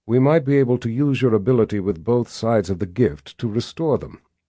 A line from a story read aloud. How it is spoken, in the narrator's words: he finally said in a measured tone